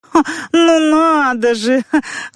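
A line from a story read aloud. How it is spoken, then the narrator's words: Laughing woman. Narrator (Russian): засмеялась комиссарша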